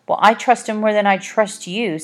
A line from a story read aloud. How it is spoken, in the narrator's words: snapped Olive